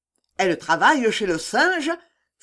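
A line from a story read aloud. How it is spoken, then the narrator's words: Resentful exclamation. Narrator (French): s'écria la Bassindre, qui avait toujours sa réception sur le cœur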